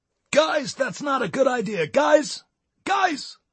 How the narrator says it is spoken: shouted a marshal through a megaphone

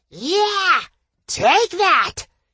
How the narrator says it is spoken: roared in my mind

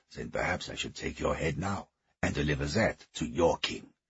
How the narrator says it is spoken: hissed, spittle flecking

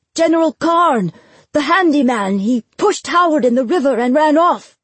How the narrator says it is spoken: shouting

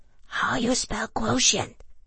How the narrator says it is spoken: she asked, whispering into my ear

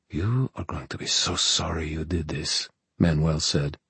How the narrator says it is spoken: his delighted whisper rasping in Diego's ear

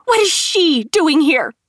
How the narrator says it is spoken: Kate found her voice and screamed

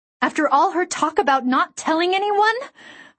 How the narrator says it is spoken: I shrieked

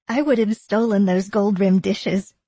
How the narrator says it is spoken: Eleanor said, laughing

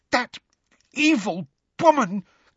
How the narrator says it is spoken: gasped Hermione, who seemed to be having difficulty talking due to rage

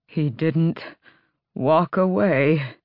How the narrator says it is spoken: Adian rasped

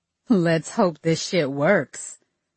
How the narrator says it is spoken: she laughed

